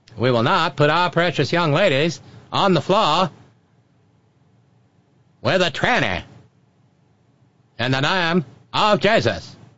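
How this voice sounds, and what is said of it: Put-on cornpone rural Southern accent. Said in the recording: “what am I doing with the cornpone accent in Vermont?”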